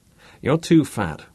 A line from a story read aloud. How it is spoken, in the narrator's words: said Bruce